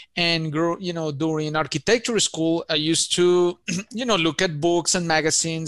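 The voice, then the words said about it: Colombian Spanish accent. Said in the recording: “I have an accent. I'm originally from Colombia, South America”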